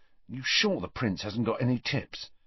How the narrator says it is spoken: Ron muttered to Harry

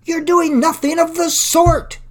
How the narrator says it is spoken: exclaimed Mr

